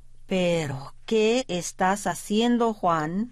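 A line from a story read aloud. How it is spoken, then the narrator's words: Plain question. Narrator (Spanish): le preguntó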